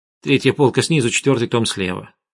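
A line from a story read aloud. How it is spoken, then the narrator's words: Irritated. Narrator (Russian): раздраженно сказала Арина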